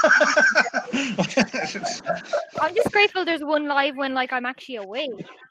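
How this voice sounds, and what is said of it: Irish accent. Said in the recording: “Is that a British accent? ... Irish.”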